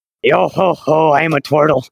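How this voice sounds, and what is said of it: A put-on character voice. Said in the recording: “I know what my character voice should be.”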